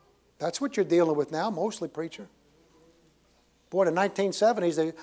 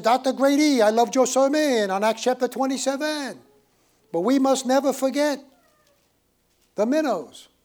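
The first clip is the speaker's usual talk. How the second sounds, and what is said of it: Put-on French Canadian accent. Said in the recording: “Real big, tall guy with a French accent.”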